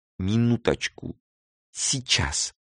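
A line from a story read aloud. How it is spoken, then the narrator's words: Whisper. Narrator (Russian): Прошептал Месроп Карапетович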